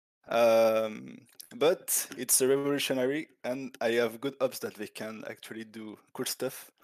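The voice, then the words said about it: French accent. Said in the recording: “Where is that accent? I'm trying to place it. Where is that accent? Is it French? ... French, yes.”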